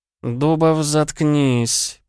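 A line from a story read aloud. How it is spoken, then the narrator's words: Through gritted teeth. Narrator (Russian): процедил Лео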